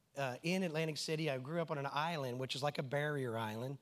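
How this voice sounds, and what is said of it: Southern American drawl. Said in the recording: “I do have a southern drawl”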